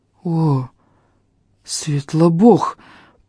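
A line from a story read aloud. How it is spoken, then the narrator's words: Hoarse wheeze. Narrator (Russian): просипел Фарис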